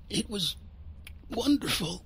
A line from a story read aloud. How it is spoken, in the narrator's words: she croaked